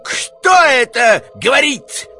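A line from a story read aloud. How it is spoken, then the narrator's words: Furious yell. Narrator (Russian): яростно заорал Варенуха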